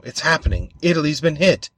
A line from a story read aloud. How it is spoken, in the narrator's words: cried Peppino